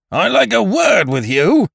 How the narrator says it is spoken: boomed the bearded one

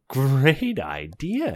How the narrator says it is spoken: he cries

